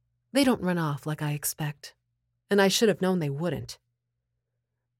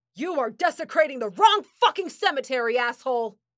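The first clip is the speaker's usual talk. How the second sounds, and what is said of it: Menacing yelled voice. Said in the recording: “I yell to them in my menacing voice.”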